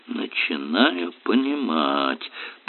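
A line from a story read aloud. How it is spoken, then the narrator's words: Muttering. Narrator (Russian): пробормотал Ярли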